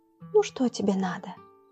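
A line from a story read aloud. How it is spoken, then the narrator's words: Gentle girl's voice. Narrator (Russian): Ласково заговорила девочка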